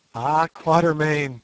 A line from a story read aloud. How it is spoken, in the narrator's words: he sang out in a trembling, excited voice